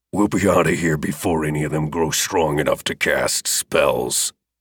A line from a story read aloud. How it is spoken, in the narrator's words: Second grunted